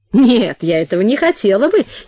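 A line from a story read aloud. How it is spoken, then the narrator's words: Forced laugh. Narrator (Russian): через силу засмеялась Нина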